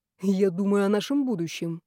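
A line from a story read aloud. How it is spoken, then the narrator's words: Boss's smirking grunt. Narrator (Russian): хмыкнул шеф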